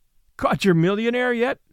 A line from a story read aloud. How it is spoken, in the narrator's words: asked Lou with her teasing laugh